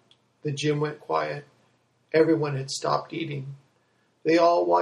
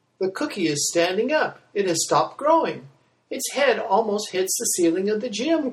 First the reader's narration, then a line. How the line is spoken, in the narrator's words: cried out Matt